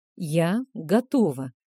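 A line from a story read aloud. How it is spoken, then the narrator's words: Breathed out, ogress. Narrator (Russian): выдохнула людоедка, вынырнув из невеселых мыслей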